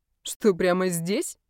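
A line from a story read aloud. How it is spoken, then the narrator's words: Snide question. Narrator (Russian): Ехидно поинтересовался его приятель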